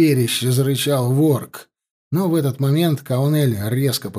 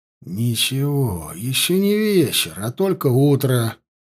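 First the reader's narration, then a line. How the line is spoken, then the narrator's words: Muttering. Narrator (Russian): пробормотал он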